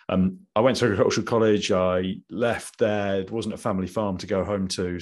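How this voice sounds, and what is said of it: English Midlands accent. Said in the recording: “I'd come from the Midlands, as you can probably tell from my accent.”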